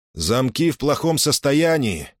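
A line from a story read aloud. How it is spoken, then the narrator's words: Loud, meant to be heard. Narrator (Russian): сказал он громко, надеясь, что Сожрук услышит и узнает его голос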